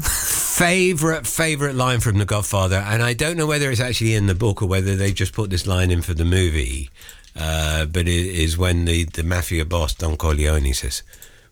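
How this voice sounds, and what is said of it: Husky voice. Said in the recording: “I've got a husky voice at the moment”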